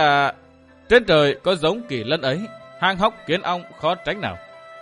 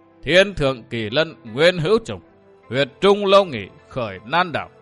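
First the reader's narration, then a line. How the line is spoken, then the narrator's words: Hearty laughing recitation. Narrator (Vietnamese): Đông Cuồng bằng một giọng cười hào sảng, lão ngâm lên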